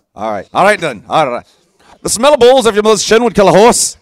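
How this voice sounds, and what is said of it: Put-on Irish accent, slightly Scottish. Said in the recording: “Irish accent... Irish. Say it to me again in Irish... A little Scottish, but not bad.”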